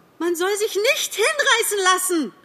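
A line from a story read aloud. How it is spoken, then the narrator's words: Pheasant calling out. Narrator (German): rief der Fasan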